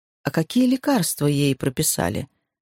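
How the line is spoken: Plain. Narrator (Russian): спросил Майк

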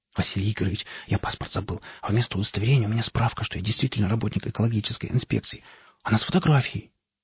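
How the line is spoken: Rapid whisper, young man. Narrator (Russian): молодой парень, на вид около 20 лет, скороговоркой зашептал

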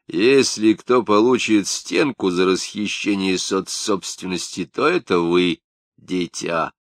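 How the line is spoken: Hoarse drunken bass. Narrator (Russian): Штады ответил пропитым басом

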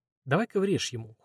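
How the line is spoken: Cold. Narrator (Russian): холодно говорит азиат

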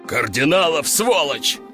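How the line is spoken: Growl. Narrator (Russian): рыкнул генерал

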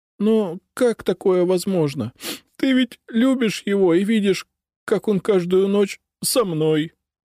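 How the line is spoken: Sobbing. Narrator (Russian): всхлипнула Катя

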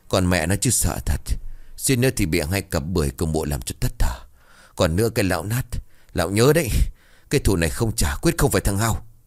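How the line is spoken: Panting, muttered cursing. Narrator (Vietnamese): chống tay thở dốc, miệng của nó lẩm bẩm chỉ rủa

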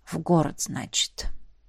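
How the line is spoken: Quiet through teeth. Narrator (Russian): тихо процедил он

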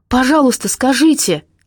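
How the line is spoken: Calling out after. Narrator (Russian): крикнула ей вслед Надя

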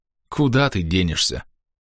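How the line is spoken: Gruff mutter. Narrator (Russian): буркнул

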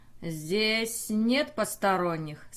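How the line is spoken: Cold question. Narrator (Russian): спросил, холодно взглянув

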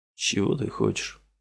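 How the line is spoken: Tired question. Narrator (Russian): Устало спросил его Дорин

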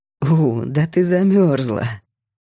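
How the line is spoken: Laughing. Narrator (Russian): засмеялся Кирилл

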